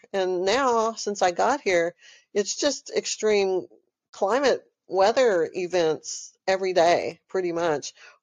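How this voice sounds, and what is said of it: Texan accent. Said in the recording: “I'm from Texas. I know y'all hear it in my accent.”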